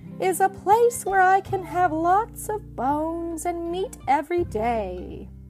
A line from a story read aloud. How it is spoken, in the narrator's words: Pup wistfully